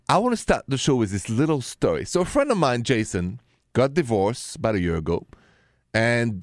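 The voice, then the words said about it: French accent. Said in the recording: “the accent is French, français”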